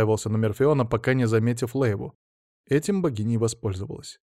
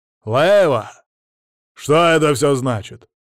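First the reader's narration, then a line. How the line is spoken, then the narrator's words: Growling. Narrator (Russian): зарычал Дарвин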